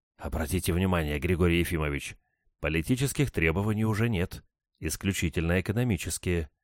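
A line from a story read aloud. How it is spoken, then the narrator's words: Whisper. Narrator (Russian): шепнул мне Булгаков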